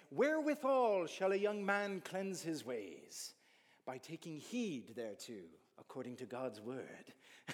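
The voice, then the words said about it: Put-on Irish accent. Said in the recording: “not in that accent, ... it just sounds better in Irish”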